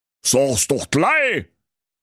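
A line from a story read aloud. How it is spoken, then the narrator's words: Greedy slobbering wolf call. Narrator (German): rief der Wolf und sabberte vor Gier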